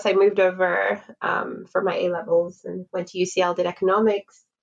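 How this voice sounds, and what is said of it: Mixed international accent. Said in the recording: “I grew up in Lagos... hence the airport accent, as I've been told I have.”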